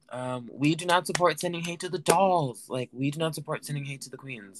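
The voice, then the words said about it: Put-on accent. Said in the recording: “I don't know why this accent is happening, but I'm kind of stuck in it now.”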